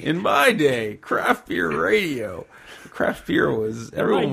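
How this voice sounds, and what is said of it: Old man voice. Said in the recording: “I should do the old man voice.”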